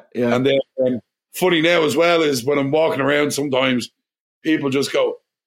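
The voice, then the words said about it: Irish accent. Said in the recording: “everybody just comments on my accent ... are you Irish? And I'm going, yeah. Oh my God, I just love your accent.”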